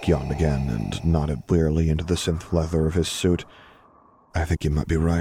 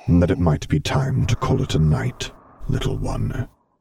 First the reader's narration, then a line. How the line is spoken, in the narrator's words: murmured quietly